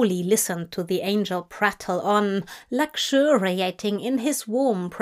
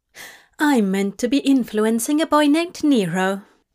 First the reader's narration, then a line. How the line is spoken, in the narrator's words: Aziraphale explained brightly